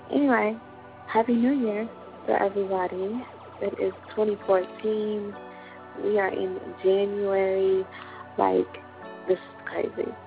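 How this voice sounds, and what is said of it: Sick, under-the-weather voice. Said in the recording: “Excuse my voice. I am under the weather”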